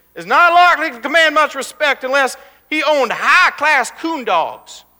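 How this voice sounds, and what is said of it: Put-on Arkansas Southern accent. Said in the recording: “an elder in the Black River bottoms of Arkansas, I don't know if I'm doing the accent right, but he wanted to give you a little flavor”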